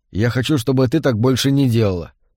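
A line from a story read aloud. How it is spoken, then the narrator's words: Plain. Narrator (Russian): сказал Джон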